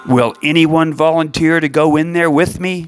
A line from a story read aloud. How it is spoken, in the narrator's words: David asked